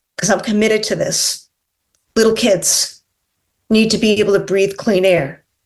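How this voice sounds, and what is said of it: Emotional, choked-up speaking voice. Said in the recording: “getting emotional ... I get emotional ... crocodile tears”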